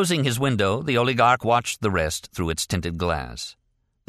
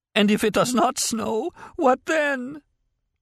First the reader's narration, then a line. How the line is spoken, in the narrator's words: Before the door slammed shut, she could be heard sobbing